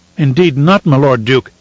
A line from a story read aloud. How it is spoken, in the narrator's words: he cried